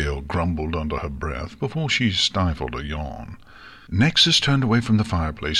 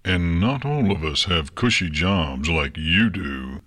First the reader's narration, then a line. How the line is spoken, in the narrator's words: Stonewall grumbled